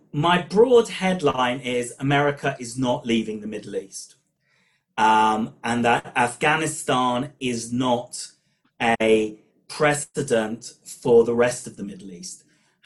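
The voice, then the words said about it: British accent. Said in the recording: “my British accent hasn't disappeared despite living in Israel for over 20 years”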